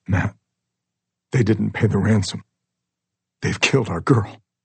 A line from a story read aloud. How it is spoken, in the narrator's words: Trying to keep her voice steady through the flowing tears, Sam says